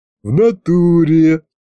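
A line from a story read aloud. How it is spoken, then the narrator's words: Imp's giggle. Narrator (Russian): хихикнул бес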